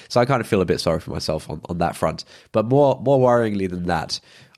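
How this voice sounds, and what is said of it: Nasal, congested voice with cold. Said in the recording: “I have a cold. I'm sure you can tell from my voice ... My voice is very kind of more nasally than usual. I have a sore throat”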